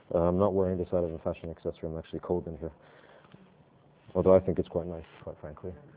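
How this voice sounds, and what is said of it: Voice affected by a cold. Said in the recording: “excuse me for my voice. I've got a bit of a cold.”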